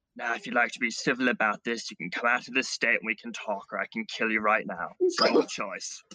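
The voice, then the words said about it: Whispered threat. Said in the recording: “I'm going to kind of whisper into its ear,”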